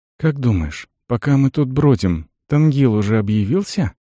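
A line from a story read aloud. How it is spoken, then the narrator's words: Quiet. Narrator (Russian): добавил тихо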